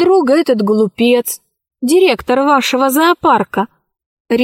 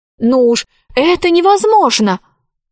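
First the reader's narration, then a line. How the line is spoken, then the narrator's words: Exclaiming. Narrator (Russian): воскликнула Алиса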